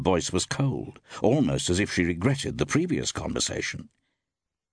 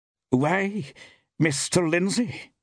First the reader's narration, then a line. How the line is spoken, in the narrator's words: exclaimed the woman in some surprise